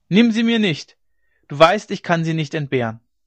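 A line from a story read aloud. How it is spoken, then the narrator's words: Shouted. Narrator (German): schrie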